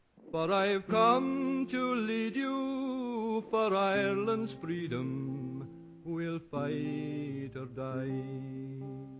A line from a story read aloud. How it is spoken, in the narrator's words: cried